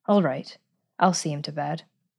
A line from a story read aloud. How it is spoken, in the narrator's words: she said in a low voice to the maid